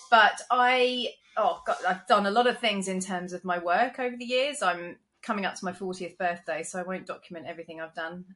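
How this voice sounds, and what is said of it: London English accent. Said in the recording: “I'm originally from London, which you can probably tell from my accent.”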